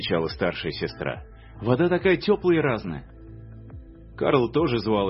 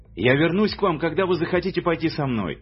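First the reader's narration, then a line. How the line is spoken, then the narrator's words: Shouted. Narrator (Russian): крикнул он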